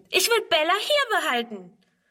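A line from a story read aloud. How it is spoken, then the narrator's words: Scream. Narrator (German): schreit Friedrun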